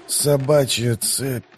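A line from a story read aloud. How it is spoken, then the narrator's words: Dark heavy sailor grumble. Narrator (Russian): проворчал моряк голосом темным и тяжелым, как воздух в трюме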